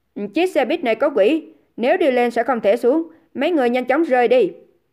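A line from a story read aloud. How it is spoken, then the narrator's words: Loud frowning shout. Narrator (Vietnamese): Dương Gian nhíu mày, sau đó quát to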